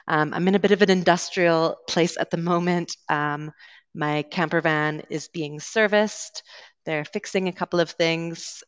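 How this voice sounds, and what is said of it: Canadian English accent. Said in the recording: “I'm originally from Canada, so you will be hearing a Canadian accent today”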